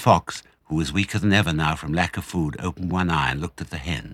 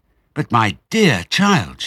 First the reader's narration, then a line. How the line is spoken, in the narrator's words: she cried